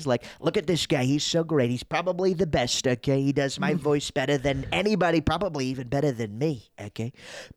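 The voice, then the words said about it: Donald Trump impression. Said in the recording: “best Trump impression”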